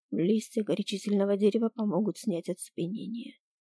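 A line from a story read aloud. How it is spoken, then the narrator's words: Calm now. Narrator (Russian): уже спокойно произнес профессор Кай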